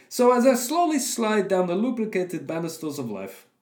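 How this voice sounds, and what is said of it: Put-on Russian accent. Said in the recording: “I'm reading it all in his Russian accent.”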